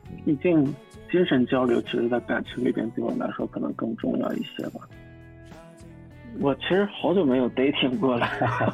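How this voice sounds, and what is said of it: Hoarse, worn-out voice. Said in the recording (Chinese): “我这嗓子就是看摇滚乐现场喊的 ... 回来嗓子哑一个月，喊了几年就这样了”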